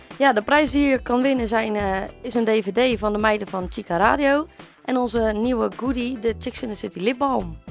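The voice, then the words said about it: Rotterdam Dutch accent. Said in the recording (Dutch): “Wat heb je trouwens een lekker Rotterdams accent.”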